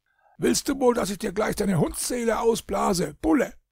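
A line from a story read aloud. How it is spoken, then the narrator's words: Furious shouting. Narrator (German): schrie Christoph Sommer jähzornig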